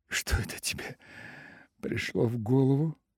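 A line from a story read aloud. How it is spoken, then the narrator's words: Unnatural, strained laugh. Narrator (Russian): Рассмеялась она и сама испугалась своего неестественного голоса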